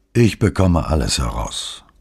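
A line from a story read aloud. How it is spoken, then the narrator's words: Calm speech. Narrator (German): meinte Lele ruhig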